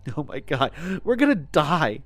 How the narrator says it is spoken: Mary said, her voice trembling

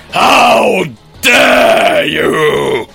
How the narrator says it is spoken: She screamed

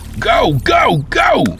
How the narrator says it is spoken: yelled

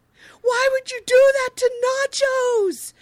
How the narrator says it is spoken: Randolph, yelled

